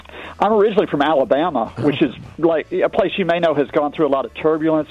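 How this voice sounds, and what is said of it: Slight American accent. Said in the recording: “I detect a hint of American accent”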